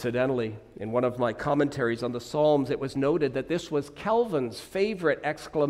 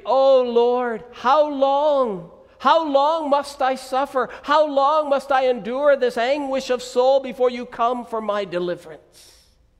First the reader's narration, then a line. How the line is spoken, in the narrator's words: he called out in misery